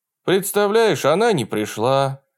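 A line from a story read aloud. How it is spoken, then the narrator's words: Sad voice. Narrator (Russian): ответил я грустным голосом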